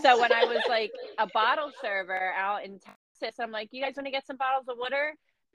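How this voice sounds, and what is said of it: Philadelphia accent. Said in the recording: “I just love your little accent ... I'm from Philly ... And I say water”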